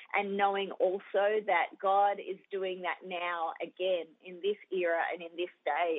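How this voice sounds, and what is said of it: Australian accent. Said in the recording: “that Australian accent”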